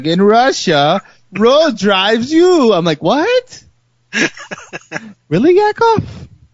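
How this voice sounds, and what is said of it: Mock Slavic accent. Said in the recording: “your Slavic accent ... talking normal like this. And then he's like”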